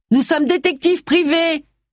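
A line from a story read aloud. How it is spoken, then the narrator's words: Shouted. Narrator (French): cria Agatha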